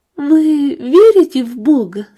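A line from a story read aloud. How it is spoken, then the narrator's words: Asked through tears. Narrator (Russian): спросила его Эстер, пытаясь сквозь слезы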